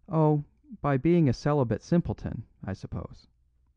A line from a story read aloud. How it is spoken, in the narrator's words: he said